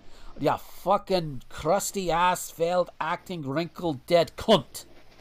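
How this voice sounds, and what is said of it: Put-on Scottish or Irish accent. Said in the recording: “I don't know which accent I was going for, but it fucking fit. ... I don't know if I was going Scottish or Irish there. ... It didn't sound like any Scottish accent I can do.”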